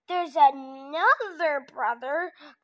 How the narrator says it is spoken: grunted Troll

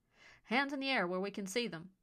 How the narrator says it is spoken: the group's leader barked

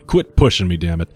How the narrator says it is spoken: the big man said thickly

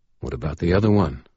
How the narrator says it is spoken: Michael asked quietly

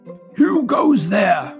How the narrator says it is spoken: a guard shout

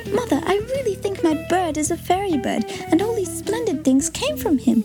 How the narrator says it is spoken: said Tilly, laughing and crying with joy

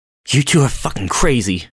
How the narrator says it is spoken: gasped, running up the stairs

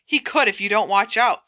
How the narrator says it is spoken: said Hermione angrily

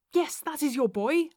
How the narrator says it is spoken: I cried

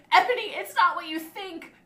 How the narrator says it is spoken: Draco screamed sadly

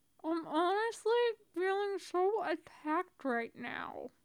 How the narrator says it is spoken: Tony says, the words coming out slurred through a mouthful of bread

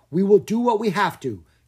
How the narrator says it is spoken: Caspar cried

